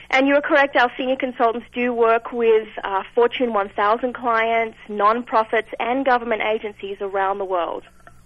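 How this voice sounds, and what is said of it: Australian accent. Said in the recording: “a really delightful accent ... It is an Australian accent.”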